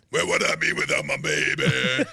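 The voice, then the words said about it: Imitates another person's voice. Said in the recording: “your Ja Rule impression”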